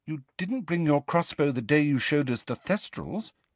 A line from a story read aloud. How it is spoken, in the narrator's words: said Hermione timidly